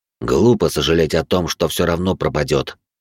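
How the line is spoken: Grumbling. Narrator (Russian): проворчал пламенеподобный

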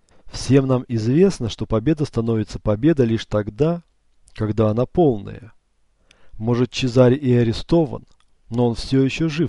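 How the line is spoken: Calm agreement. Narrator (Russian): спокойно поддержал Макиавелли

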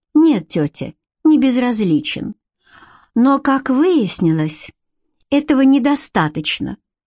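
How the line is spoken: Sighing. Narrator (Russian): вздохнула Бренна

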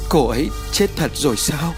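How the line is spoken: Tearful. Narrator (Vietnamese): Nước mắt khẽ chảy xuống từ khóe mắt

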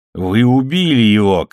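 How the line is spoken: Shout. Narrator (Russian): крикнул губернатор

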